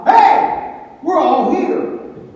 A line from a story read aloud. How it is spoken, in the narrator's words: Paul shouts out